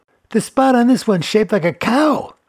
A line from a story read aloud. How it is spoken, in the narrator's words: yelled Felix